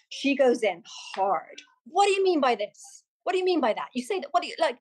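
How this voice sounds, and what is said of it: Impression of Vanessa Feltz's hard questioning. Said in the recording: “That was a really good impression. It had the tonality and everything. ... Vanessa Feltz”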